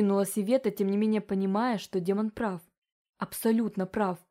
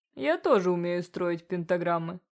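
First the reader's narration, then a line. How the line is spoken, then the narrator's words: Snorting. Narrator (Russian): хмыкнул Фентехард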